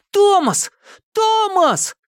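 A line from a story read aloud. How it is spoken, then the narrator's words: Boy shouting. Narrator (Russian): кричал мальчишка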